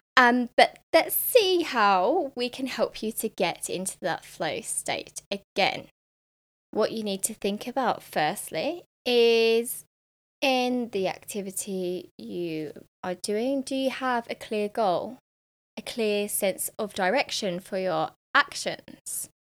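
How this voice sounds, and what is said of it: Hoarse, croaky throat. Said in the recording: “I've got a frog in my throat today”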